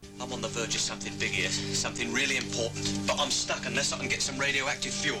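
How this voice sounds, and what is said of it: Put-on British accent. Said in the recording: “adopts a British accent that deviates only slightly from his Eastern European parents”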